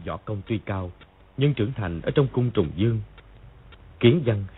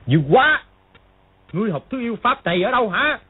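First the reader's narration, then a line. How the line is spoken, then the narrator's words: Shocked angry shout. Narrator (Vietnamese): Triệu Chí Kính vừa kinh hãi vừa tức giận gọi to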